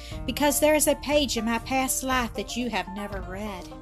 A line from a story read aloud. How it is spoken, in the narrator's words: he went on, smiling sadly